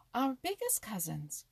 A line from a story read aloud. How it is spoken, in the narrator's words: cried Peter and Jumper together